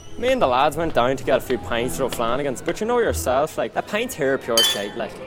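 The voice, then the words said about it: Strong non-American, likely Irish accent. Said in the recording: “The accent straight away gives away that you're not from the States ... they can't even understand what you're saying half the time”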